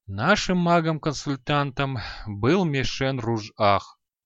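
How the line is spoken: Sigh. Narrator (Russian): вздохнул Раг Хадарзан

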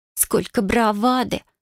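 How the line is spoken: Scornful snort. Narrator (Russian): фыркнула она

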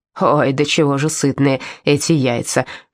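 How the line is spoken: Embarrassed mumble. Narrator (Russian): пробурчала смущенно

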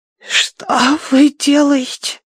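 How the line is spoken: Hoarse rasp. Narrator (Russian): прохрипела

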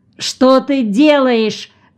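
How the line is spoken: Old woman shouting. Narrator (Russian): закричала бабка

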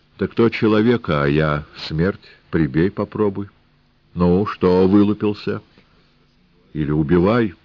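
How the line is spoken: Cheerful. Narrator (Russian): А она весело

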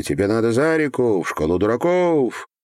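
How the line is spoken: Exasperated teachers shouting. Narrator (Russian): особенно донимал педагогов тупостью и строптивостью, они кричали

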